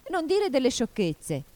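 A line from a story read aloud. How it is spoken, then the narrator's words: Shouted. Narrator (Italian): gridò Alice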